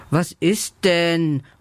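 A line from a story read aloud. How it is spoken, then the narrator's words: Confused sleepy mumble. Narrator (German): murmelt Lela verwirrt und öffnet kurz ihre müden Augen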